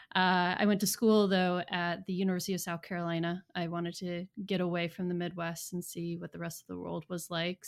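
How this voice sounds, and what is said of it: American Midwest accent. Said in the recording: “my entire family is a Midwest family, hence the accent.”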